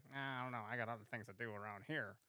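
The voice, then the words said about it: Imitates another person's voice. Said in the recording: “a great impression”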